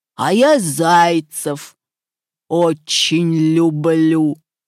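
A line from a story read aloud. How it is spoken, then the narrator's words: Wolf's growl. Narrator (Russian): зарычал волк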